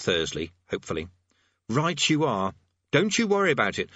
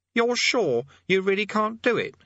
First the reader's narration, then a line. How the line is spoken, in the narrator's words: he said, the edge of pleading in his voice